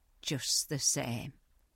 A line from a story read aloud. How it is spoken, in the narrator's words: said Marna, more bitterly than ever